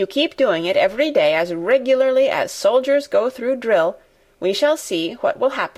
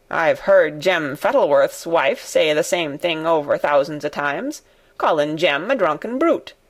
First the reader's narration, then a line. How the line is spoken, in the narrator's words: said Ben Weatherstaff dryly